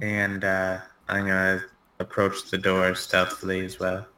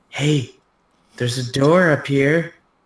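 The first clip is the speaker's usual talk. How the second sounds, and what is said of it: Loud whisper. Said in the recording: “whisper down, like a loud whisper.”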